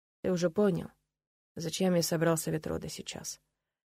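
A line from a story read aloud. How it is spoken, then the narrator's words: Quiet father, after pause. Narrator (Russian): негромко проговорил отец после долгой паузы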